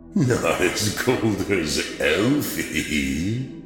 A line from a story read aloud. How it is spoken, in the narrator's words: the strange metallic voice chuckled from between the branches